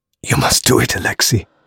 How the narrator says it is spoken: whispered

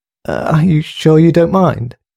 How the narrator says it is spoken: He stuttered

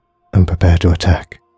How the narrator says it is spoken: he whispered guiltily

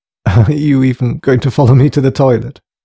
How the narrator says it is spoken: joked Thomas, trying nervously to break the ice a little

